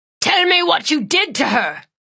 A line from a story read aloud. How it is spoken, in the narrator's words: Grath shouted